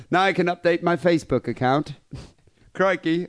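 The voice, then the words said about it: Put-on Australian accent. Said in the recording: “I can't do two accents per show. ... Now I'm still doing the Australian shit.”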